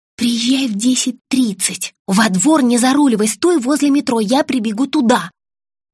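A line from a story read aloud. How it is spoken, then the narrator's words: Daughter yelling, then whispering. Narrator (Russian): заорала в ответ дочка и снова шепотом сказала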